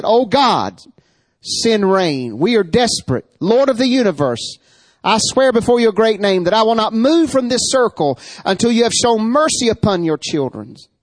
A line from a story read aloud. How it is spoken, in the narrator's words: called out to the God of heaven and said